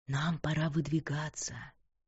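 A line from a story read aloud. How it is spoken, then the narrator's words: Whisper in ear. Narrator (Russian): прошептал ей на ухо Тристан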